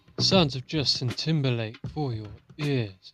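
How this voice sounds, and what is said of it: Smooth, lush radio voice. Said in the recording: “I love your radio voice ... Your voice is changing. It's lush ... it was smooth, it was sexy”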